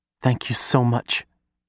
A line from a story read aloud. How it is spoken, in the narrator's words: she says, her voice breaking like waves over the syllables